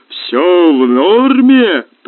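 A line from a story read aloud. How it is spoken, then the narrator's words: Roaring. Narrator (Russian): проревела голова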